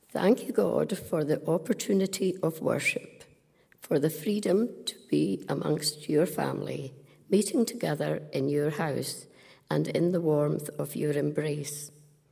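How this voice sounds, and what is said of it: Hoarse voice. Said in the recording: “I'm a bit hoarse today.”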